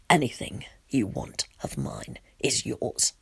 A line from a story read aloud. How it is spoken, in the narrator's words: he says in a serious voice